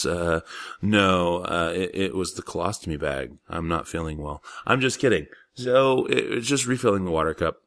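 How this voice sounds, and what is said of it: Congested, sore-throated voice. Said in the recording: “You might be able to tell it in my voice. I am coming off of a very bad sinus, sore throat, congestion thing.”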